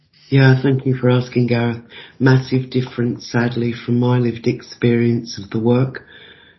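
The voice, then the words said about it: English accent. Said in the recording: “People can probably pick your accent up. You are from England.”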